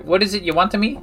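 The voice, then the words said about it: Thick, hard-to-understand character accent. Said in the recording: “The woman's accent is thick, and you are having difficulty making out what she is saying.”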